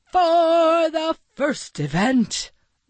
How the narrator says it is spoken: Maxwell shouted

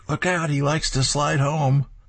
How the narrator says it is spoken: Billy shouts at the catcher

